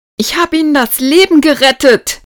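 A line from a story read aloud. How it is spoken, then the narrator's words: Angry shouting. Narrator (German): schrie Marie wütend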